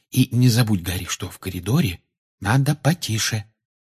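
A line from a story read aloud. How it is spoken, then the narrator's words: Whispered reminder. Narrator (Russian): шепотом напомнила ему Гермиона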